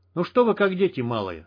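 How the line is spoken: Irritated, over radio. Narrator (Russian): раздраженно сказал Стерх, прижимая тангенту командирской рации

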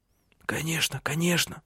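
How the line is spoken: Mutter. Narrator (Russian): Бормотал он

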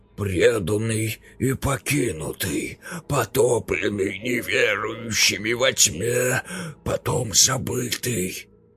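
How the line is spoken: Hoarse rasp. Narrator (Russian): прохрипел капитан

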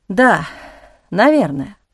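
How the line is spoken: Sighing. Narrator (Russian): вздохнул

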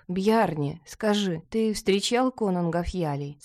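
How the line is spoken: Plain. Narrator (Russian): спросил Ингитора

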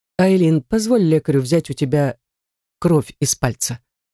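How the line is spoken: Gentle request. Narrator (Russian): мягко просит Редгер, успокаивающе

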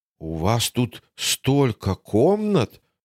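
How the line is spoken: Tossed-off remark. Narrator (Russian): бросил он в спину дамам

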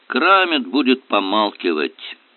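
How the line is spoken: Gloomy report. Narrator (Russian): мрачно доложил он

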